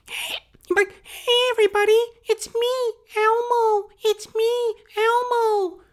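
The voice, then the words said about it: Elmo character voice impression. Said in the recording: “Elmo impersonation”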